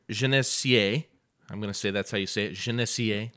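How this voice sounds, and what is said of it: Put-on accent on a name. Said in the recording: “Do you like my accent?”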